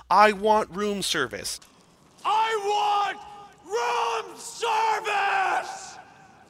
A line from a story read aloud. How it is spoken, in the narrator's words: he shouts